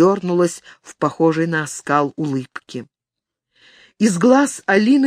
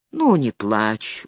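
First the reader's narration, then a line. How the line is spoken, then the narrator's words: Gentle soothing father. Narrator (Russian): ласково приговаривал отец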